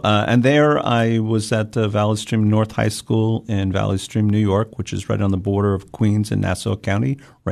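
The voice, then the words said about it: Long Island New York accent. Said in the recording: “my Long Island accent... I do hear it.”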